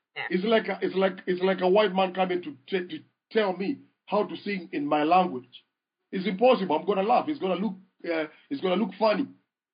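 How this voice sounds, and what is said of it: African accent. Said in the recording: “I'm an African. ... And the accent is my identity.”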